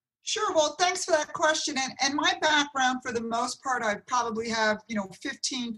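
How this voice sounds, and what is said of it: New Jersey accent. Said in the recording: “the Jersey accent”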